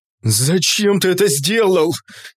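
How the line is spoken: Desperate shout. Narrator (Russian): закричал в отчаянии Влас

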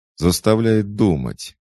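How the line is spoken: Cheerful chuckle. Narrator (Russian): весело хохотнул Джо

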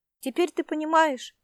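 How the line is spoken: Desperate exclamation. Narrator (Russian): с отчаянием воскликнула Эльвира

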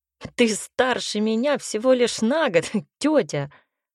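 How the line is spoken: Short laugh. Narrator (Russian): хохотнул Ник

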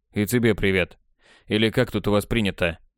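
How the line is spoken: Snorting. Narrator (Russian): хмыкнул я

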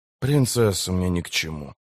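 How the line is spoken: Calm. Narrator (Russian): спокойно сказал Геральт

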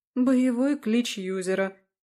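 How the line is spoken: Sigh. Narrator (Russian): вздохнула Галя

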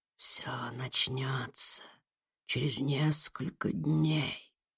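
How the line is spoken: Whisper. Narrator (Russian): прошептал голос

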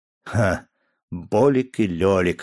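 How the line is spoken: Chuckling. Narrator (Russian): хохотнул я

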